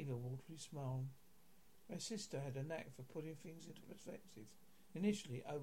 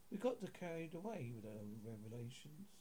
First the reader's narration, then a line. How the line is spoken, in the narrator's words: said